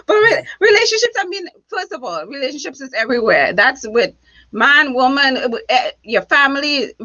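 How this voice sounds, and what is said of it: Noticeable accent. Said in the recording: “how sexy my accent was”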